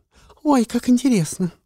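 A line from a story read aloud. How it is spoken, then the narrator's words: Exclamation. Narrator (Russian): воскликнула Кэт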